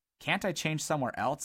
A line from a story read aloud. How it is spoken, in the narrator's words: asked Dodd nervously